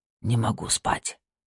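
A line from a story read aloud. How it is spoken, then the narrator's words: Quiet. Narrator (Russian): тихо ответил он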